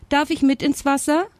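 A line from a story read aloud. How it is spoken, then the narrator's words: Called out. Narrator (German): rief er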